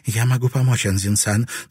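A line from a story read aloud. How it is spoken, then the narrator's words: Hurried. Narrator (Russian): торопливо сказала она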